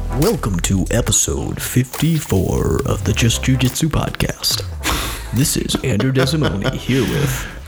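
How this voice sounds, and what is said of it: Put-on professional announcer voice. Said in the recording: “Are you sick there or ... That's my professional announcer voice ... That sounds ill ... You sound like you're making a face as you spoke”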